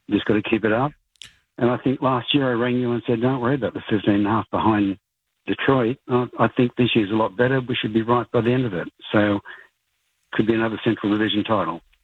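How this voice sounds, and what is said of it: Australian accent. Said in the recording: “I thought for a second ... was saying betting, but he was saying batting ... it's the accent ... the Columbus man from down under”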